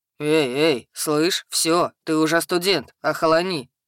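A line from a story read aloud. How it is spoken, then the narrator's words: Troll's booming drone. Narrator (Russian): прогудел тролль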